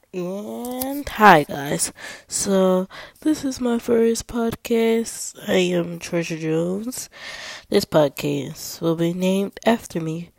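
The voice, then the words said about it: Cracky, sick-sounding voice. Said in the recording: “Sorry for my voice if it's a little bit cracky, it's because I'm kind of sick.”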